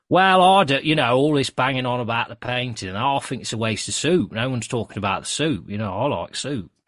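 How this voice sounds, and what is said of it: Imitated Nottingham accent, well done. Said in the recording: “Do you think ... sounds like a Snentonite? ... imitate a Nottingham accent ... he did a very good job”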